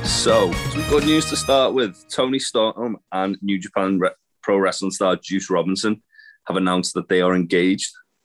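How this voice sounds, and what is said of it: Hoarse, fading voice with a cold. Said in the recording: “my voice is on its way out ... I'm losing my voice and I'm full of cold already”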